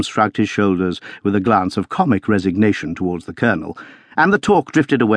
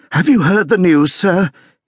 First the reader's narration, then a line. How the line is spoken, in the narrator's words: gasped